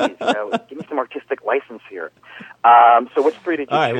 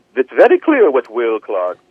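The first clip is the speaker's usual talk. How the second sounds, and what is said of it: Mock Sigmund Freud accent. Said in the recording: “Trying to do a Freud accent.”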